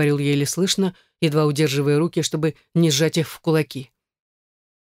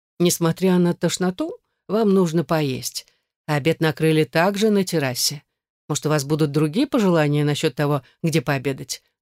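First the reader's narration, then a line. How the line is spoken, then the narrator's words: Plain. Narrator (Russian): спросила она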